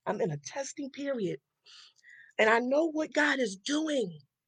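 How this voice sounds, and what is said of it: Emotional, choked-up voice. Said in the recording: “I'm getting a little emotional.”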